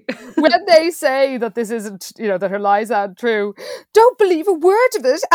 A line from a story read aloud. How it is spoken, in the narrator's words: Annie Sue cried, making a terrible face